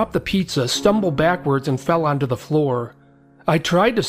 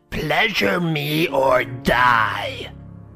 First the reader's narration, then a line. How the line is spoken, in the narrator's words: Her face was wrinkled into an evil snarl and she screeched out